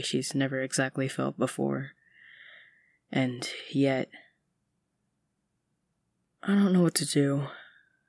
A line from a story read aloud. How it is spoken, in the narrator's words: she mumbles